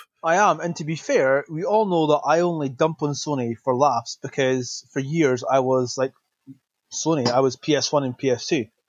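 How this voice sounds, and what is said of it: Scottish accent. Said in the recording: “you are so Scottish... I am very Scottish. The accent may give it away”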